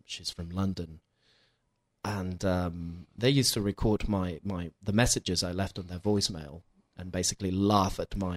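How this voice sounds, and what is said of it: British accent. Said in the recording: “I'm left with this British accent. I think everyone can recognize it.”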